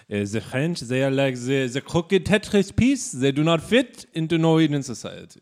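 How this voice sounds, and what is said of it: Put-on Norwegian accent. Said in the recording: “here's my Norwegian accent.”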